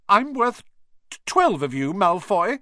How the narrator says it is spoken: he stammered

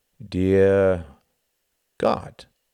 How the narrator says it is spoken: said Martin slowly

